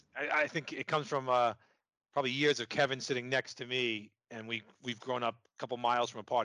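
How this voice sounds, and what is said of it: Strong New York accent. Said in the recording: “my New York accent is probably way worse than his New York accent, and he can barely understand me at times”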